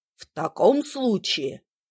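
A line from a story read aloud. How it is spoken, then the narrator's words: Angry reply. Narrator (Russian): сердито ответил папа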